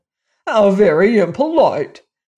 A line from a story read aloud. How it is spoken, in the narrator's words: exclaimed the phonograph